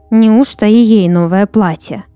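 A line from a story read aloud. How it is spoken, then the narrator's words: Envious grumbling. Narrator (Russian): ворчала Ирина, завистью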